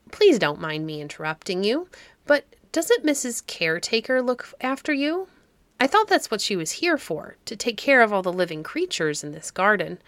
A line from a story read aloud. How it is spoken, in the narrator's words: began Alex rather timidly